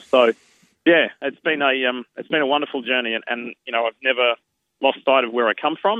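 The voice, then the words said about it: Australian accent, Brisbane suburbs. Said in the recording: “doesn't sound like there's any American accent there ... I've got this housing commission Western suburbs of Brisbane accent”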